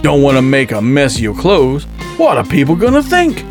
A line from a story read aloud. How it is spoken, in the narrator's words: He gave a chuckle